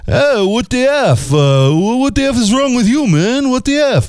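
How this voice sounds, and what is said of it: Put-on New York City accent. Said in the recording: “That was my New York City accent.”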